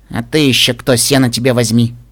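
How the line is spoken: Dull grumbling. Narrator (Russian): проворчала блеклая Пинки Пай

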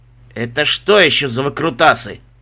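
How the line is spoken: Barked from doorway. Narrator (Russian): рявкнул с порога Горб

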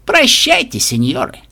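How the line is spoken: Mocking laugh. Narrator (Russian): Глумливо засмеялся Моцарелло-старший

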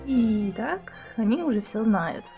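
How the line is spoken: Sigh. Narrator (Russian): вздохнула

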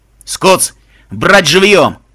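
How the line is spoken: Stepfather's shout. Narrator (Russian): крикнул отчим

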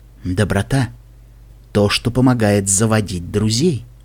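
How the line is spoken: Whispering. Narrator (Russian): Наклонившись к пегасу, она прошептала

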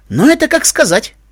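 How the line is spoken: Snort. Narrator (Russian): фыркнул Барт Лайтинг

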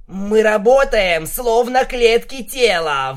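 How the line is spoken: Shouted out. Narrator (Russian): выкрикнул он

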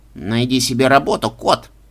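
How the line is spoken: Grumbled. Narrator (Russian): буркнул Джерри

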